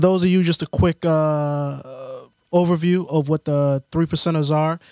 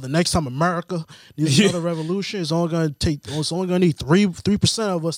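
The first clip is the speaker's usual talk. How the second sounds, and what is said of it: Put-on Southern American accent. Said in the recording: “I don't know why I'm speaking that accent ... not everyone that speaks with a southern accent is ignorant”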